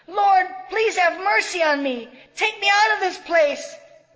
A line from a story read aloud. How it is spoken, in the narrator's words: She screamed